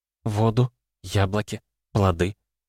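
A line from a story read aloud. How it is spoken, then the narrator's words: Forced out. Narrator (Russian): выдавила Лита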